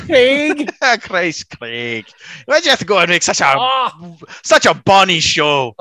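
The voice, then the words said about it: Put-on Scottish accent. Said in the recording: “you absolutely have to speak with a Scottish accent.”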